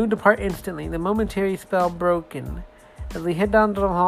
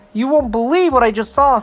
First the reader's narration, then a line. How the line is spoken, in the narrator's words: said Jonathan excitedly